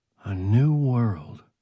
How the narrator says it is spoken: Morris said softly

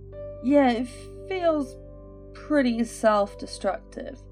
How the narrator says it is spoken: Micah yawned

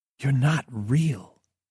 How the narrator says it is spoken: Sam said, her voice filled with awe

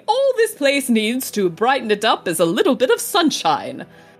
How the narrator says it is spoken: said the professor happily

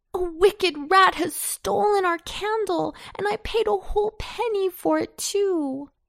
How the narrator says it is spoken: cried he

